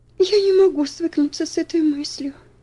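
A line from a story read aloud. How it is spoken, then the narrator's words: Sobbing. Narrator (Russian): рыдала Аделаида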